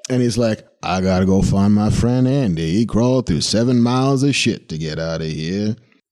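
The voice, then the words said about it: Weak Morgan Freeman impression. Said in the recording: “My Morgan Freeman impression is not quite up to snuff.”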